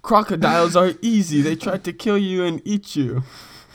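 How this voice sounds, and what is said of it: Put-on Australian accent. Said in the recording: “You give us your best Australian accent.”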